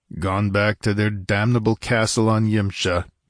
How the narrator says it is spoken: grunted Conan

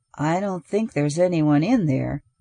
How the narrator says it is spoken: Jones said in a low voice

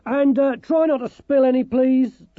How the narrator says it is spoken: Dorcas shouted up after them

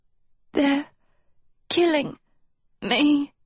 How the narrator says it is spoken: Sophie rasped weakly

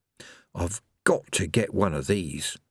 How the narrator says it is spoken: murmured

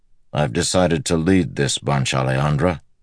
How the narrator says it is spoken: Perrin said gruffly

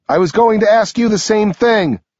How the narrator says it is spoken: I yell back

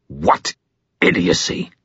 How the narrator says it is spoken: he snarled toward Madge

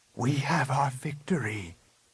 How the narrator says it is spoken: Luke whispered

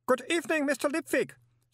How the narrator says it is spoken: said the cheery voice

